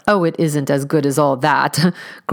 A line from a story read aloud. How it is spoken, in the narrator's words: growled Mrs